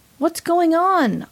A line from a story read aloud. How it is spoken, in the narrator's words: asked, still yelling